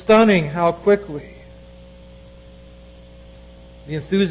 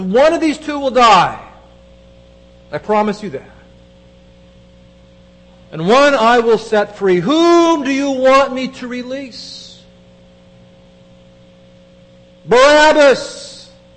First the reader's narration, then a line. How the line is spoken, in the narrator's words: The crowd yells